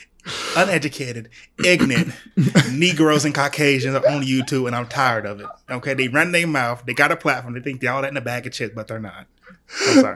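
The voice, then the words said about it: Imitates a petty YouTuber's clapback voice. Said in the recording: “Who are you impersonating right there? ... just YouTubers who do stupid little clapbacks on other YouTube channels”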